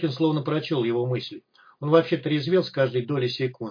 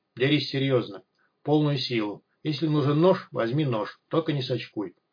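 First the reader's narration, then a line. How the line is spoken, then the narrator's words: Firm calm voice. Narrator (Russian): Неожиданно твердым и спокойным голосом предложил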